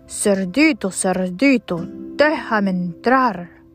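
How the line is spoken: Growled. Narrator (Spanish): gruñó

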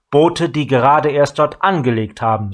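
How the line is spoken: Plain. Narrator (German): sagte Gideon

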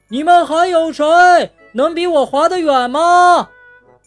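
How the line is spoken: Excited shrieking. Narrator (Chinese): 企鹅们兴奋极了，他们尖叫着

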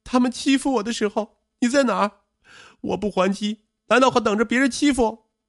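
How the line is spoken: Aggrieved tearful shout. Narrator (Chinese): 王小璐的委屈再也掩饰不住，她哭喊着

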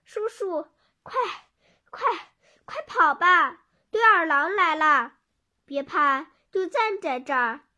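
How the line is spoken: Breathless panting. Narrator (Chinese): 果果大口喘着气说道

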